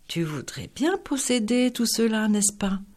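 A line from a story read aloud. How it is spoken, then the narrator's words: Interested sigh. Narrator (French): soupira-t-il plein d'intérêt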